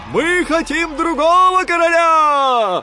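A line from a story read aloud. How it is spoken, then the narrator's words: Soldiers shouting. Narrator (Russian): кричали солдаты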